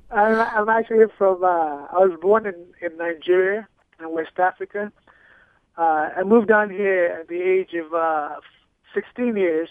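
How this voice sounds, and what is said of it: Some African accent. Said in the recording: “I'm detecting some accent, and much of the press material mentions an African background”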